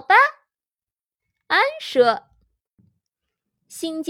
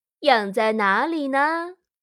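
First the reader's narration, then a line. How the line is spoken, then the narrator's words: Plain. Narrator (Chinese): 邓恩太太问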